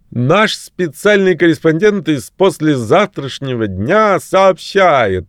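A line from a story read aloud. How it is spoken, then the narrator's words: Half-shouted announcement. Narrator (Russian): сказал или скорее выкрикнул журналист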